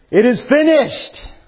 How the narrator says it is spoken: on the cross, as he was dying, he could shout

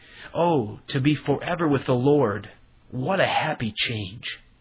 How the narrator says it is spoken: Once she broke out into a rapture and exclaimed

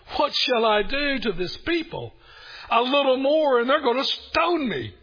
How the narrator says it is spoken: So Moses cried out to the Lord, saying

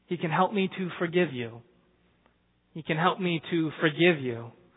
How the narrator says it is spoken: she said very gently

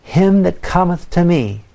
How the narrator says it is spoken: Jesus said

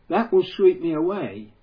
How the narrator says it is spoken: cried out

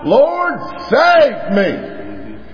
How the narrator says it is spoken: He just screams out

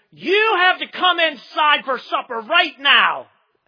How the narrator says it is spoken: scream

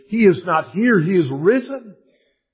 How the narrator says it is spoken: The linens cried out as clearly as did the angels

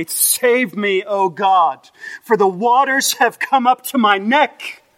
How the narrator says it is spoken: in the language reminiscent of, he cries out in faith

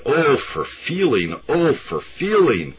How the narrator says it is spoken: she cried

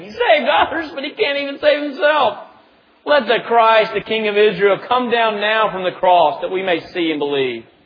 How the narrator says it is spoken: mocked him to one another, saying

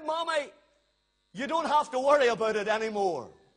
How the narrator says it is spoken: The little boy shouted

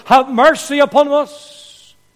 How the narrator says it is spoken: the two blind men, they cried out

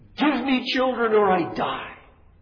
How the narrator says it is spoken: Rachel envies her sister, and Rachel screams at Jacob

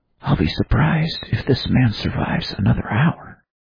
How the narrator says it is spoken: Adam whispered to Watson

